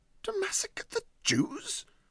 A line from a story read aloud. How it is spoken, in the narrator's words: said Huddle indignantly